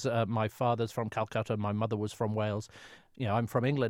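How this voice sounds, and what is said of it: British English accent. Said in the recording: “I'm a very proud Brit, as you can tell from my accent”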